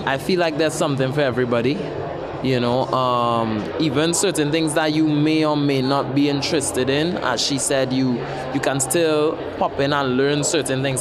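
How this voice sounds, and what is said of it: Trinidadian accent. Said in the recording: “hear my accent, and be like, I know you, you're from Trinidad and Tobago”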